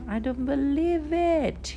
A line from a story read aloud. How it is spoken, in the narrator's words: cried his companion